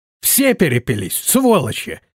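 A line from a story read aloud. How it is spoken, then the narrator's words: Exclaiming. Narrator (Russian): воскликнул он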